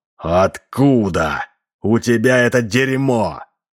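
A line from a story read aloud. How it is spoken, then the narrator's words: Choked hoarse wheeze. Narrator (Russian): Гвардеец что-то прохрипел, подергиваясь в железной хватке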